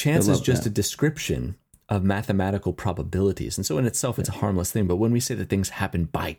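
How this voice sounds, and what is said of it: Usual voice. Nothing is said of it.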